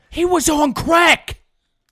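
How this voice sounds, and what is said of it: Imitates another person's voice. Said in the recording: “That's my Stephen A. That impression. Was very good.”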